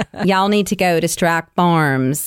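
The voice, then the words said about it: Put-on Houston Texan accent. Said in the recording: “Only if you say it with a Houston accent.”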